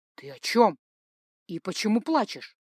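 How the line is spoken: Worried question. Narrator (Russian): спросил Ральф взволнованным голосом

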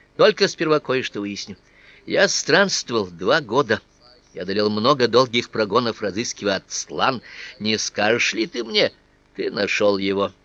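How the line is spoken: Indifferent interruption. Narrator (Russian): перебил меня парень равнодушным тоном

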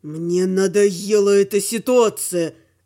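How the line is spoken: Growling werewolf. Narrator (Russian): рычал оборотень

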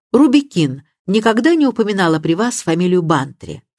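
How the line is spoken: Plain. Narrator (Russian): спросил Мелчетт

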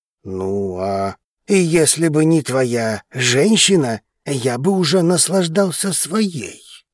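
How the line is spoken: Grumbling. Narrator (Russian): проворчал Артигосец

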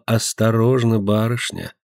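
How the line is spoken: Quiet whisper. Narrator (Russian): тихо прошептала

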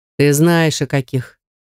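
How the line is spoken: Lazy reply. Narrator (Russian): лениво отозвался

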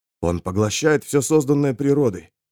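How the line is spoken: Muttered. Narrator (Russian): пробормотал медицинский эксперт

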